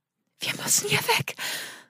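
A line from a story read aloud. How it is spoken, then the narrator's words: Breathless whisper. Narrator (German): wisperte Sandra atemlos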